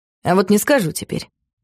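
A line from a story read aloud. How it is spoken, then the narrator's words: Teasing, spiteful declaration. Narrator (Russian): вредным тоном заявил Макс, явно желая, чтобы его начали упрашивать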